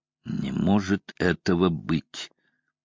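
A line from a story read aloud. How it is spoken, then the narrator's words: Strained, forced out. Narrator (Russian): выдавил, наконец, Ван Гельдер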